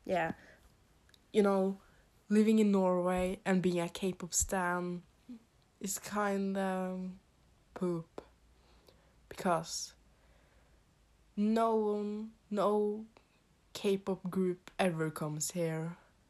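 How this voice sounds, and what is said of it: Norwegian-accented English. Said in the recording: “I live in Norway. You could probably hear that by my accent, that it's not perfect”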